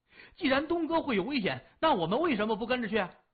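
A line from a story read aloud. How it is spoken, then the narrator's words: Loud. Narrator (Chinese): 李爽……大声说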